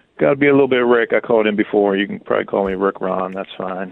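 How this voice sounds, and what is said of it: Muted, depressed-sounding voice. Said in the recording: “you sound depressed. ... You sound very muted today.”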